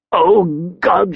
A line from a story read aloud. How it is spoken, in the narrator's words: he said, choking on his laughter